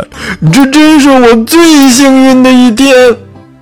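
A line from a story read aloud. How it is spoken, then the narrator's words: Crying out. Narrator (Chinese): 小猪叫起来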